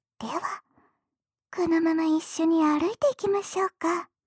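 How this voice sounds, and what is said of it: Whispering. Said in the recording (Japanese): “ささやきながら”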